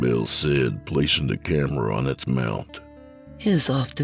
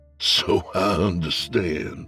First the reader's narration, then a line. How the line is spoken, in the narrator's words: Fant chuckled